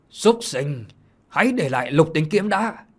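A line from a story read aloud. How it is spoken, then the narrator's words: Loud sudden shout. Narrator (Vietnamese): Bỗng một tiếng quát to vang lên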